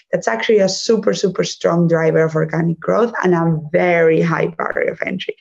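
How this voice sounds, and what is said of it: Spanish accent. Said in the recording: “my accent, which I am cannot escape ... that I'm from Spain. But actually, I was partly raised in Germany.”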